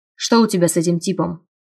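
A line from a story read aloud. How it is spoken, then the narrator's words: Stern question. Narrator (Russian): спросил он строго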